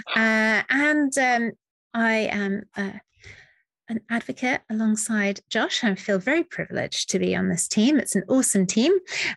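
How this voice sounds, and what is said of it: British English accent. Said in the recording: “you can probably tell from my accent that I'm a very long way away from Josh right now, all the way across a continent and an ocean in UK”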